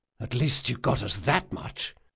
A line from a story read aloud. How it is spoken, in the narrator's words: whispered Jean